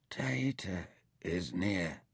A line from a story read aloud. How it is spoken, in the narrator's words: he murmured